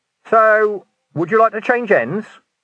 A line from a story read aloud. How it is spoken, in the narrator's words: He called out